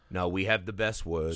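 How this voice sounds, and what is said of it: Imitates another person's voice. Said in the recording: “bring that impression into this pod? ... It's a bad impression,”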